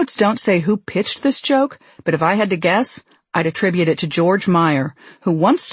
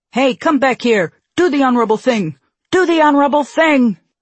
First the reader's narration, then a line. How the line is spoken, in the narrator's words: the waiter shouts after him